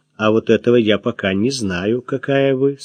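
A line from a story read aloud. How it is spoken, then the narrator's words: Calm reply. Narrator (Russian): спокойно ответил Максим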